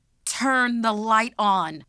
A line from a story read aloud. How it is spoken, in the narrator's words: she yelled